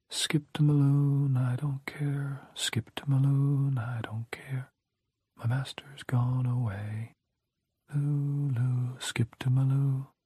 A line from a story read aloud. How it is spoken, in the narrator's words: he sang under his breath